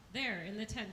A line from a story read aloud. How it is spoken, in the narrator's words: he said